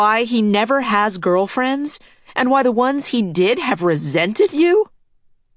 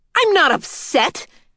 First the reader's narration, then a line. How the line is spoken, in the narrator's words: Adrienne shouted